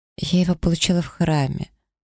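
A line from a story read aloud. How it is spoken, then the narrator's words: Dejected voice. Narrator (Russian): упавшим голосом ответила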